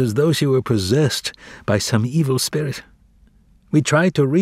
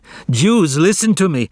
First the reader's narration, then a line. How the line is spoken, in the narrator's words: she cried